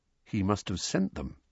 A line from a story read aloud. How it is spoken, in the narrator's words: said Harry quietly, more to himself than to Uncle Vernon